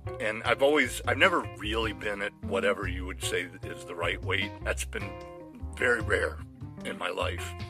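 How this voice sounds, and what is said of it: Rough, hoarse voice. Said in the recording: “my voice is very rough all of a sudden”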